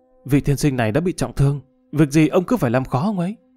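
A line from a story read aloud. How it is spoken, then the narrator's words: Sighing. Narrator (Vietnamese): Lục Tiệm thở dài nói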